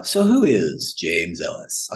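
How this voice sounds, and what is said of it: Deep announcer-style radio voice. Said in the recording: “I'll get my full radio voice.”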